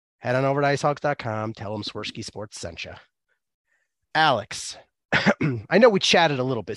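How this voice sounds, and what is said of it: Slightly rough, sick-sounding voice. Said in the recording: “Sorry for my voice. ... I have been sick as a dog all week long. ... I'm glad to have my voice mostly back”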